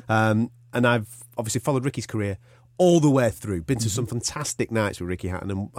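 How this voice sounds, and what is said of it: Northern English accent. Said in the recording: “I'm of an accent that's a little bit further down the M62, okay? Where a certain fighter called Ricky Hatton comes from.”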